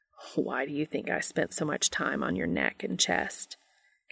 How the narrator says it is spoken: Castiel chuckles softly

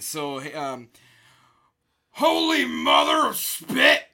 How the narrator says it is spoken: I shouted

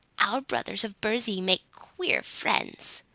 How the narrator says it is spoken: grumbled an ancient Nook

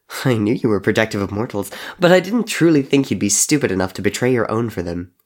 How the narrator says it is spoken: Henry laughed

